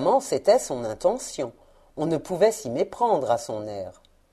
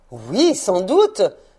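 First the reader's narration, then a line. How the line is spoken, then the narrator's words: Old man exclaiming. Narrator (French): s'écria le vieux monsieur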